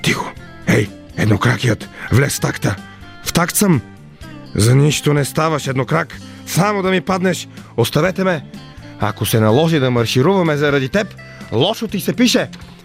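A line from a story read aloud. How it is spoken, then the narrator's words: Muttering soldiers. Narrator (Bulgarian): Промърморили войниците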